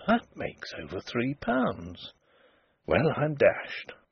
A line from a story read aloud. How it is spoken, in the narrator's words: he murmured